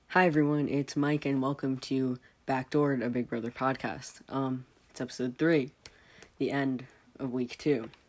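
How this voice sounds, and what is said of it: Voice sounds unwell. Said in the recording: “as you can probably tell by my voice, I am not very splendid. For the past 3 weeks, in fact, I have not been very splendid.”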